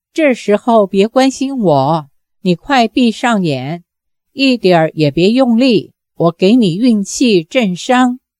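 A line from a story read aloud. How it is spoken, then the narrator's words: Low, wry. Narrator (Chinese): 杨过苦笑，低声说道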